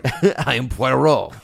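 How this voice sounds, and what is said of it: Put-on French accent. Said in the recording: “he would be doing a French accent.”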